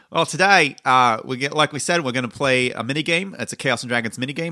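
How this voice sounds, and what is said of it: Mixed generic non-American accent. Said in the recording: “that accent is just, are you trying to be Badfinger? ... This is not a British accent. This is an amalgamation of lots of accents. ... that's a generic non-American accent.”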